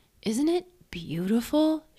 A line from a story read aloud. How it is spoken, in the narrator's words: she cooed